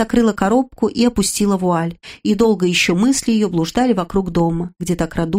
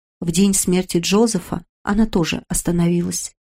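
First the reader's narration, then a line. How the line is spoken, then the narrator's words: Whisper. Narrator (Russian): прошептал он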